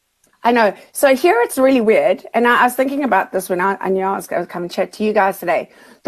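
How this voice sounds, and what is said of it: Strong Australian accent. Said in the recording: “your Australian accent is getting really strong”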